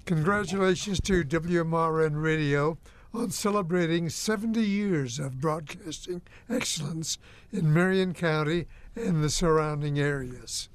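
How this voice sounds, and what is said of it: Strained, failing voice. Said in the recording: “Losing my voice.”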